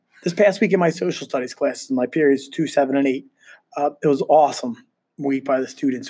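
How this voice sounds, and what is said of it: Raspy, congested voice. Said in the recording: “My voice might sound a little off. I'm battling a sinus infection ... so I apologize for the raspiness.”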